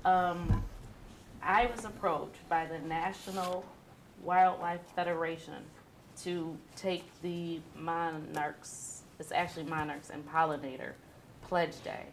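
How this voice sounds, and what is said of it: Strained, failing voice. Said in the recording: “I'm losing my voice”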